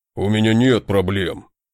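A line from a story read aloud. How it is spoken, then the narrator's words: Snapped. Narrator (Russian): огрызнулся тот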